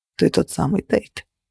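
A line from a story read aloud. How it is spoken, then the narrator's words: Muttered. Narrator (Russian): пробормотал он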